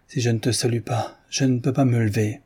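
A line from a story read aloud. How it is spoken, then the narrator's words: Sorrowful tone. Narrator (French): dit-il d'un ton chagrin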